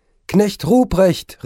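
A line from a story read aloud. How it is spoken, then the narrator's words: Calling out. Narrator (German): rief es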